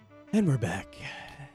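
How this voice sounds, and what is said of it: Put-on sexy voice. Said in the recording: “I'm using my sexy voice.”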